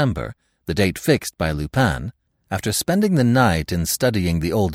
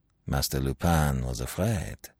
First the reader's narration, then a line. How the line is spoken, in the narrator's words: he muttered, not without a certain satisfaction